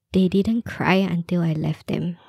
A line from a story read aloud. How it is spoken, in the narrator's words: he whispered